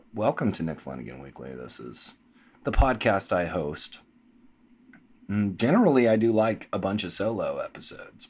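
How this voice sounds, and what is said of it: Sick voice from a cold. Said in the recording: “I have recovered from my sickness cold. Somewhat. I'm still coughing, actually, and you can probably hear in my voice”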